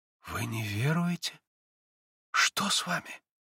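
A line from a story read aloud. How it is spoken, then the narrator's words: Quiet careful speech. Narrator (Russian): Тихо и осторожно проговорила Лис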